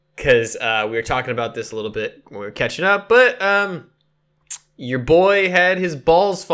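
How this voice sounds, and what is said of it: Usual voice. Nothing is said of it.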